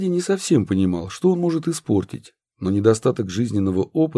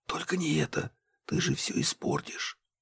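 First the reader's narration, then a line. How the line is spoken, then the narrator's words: Conflicted whisper. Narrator (Russian): борясь больше с собой, чем с Аркадием, Марина шептала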